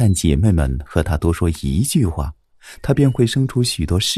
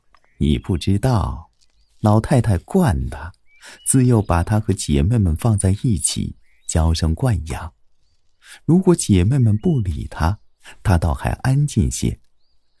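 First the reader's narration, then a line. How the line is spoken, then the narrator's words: Laughing. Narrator (Chinese): 王夫人笑道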